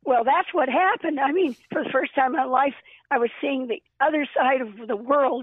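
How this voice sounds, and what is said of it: Nearly lost, strained voice. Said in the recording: “I've almost lost my voice.”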